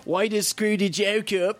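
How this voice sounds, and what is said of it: Bad put-on Australian accent. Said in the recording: “my horrible Australian accent”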